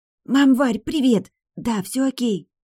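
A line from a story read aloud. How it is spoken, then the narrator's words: Hissing girl. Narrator (Russian): зашипела приемная дочура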